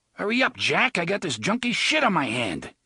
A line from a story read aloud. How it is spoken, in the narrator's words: Claudio yelled angrily